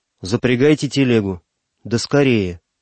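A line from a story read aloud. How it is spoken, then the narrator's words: Sudden firm voice. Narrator (Russian): вдруг сказал твердым голосом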